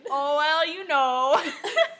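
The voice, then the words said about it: Put-on Minnesotan accent. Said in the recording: “my impersonation of her boyfriend ... That's a pretty spot on ... like a Minnesota ... Minnesotan accent”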